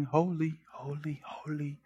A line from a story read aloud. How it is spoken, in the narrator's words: These seraphim, they're not whispering